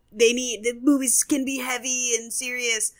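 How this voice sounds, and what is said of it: Mocking parody voice. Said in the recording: “do a parody voice ... That was actually really good.”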